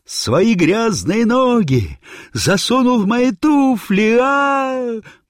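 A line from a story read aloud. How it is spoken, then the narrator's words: Frantic outraged yelling. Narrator (Russian): Васька, как только увидел меня в своих туфлях, заорал не своим голосом на всю оперетту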